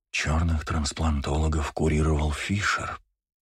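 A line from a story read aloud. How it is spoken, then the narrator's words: Inner voice whispering. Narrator (Russian): прошептал голос в его голове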